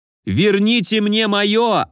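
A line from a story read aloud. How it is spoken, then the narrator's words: Spluttering yell. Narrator (Russian): орал я, брызгая слюнями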